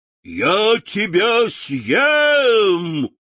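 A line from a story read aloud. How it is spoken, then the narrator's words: Lion's roar. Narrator (Russian): лев проревел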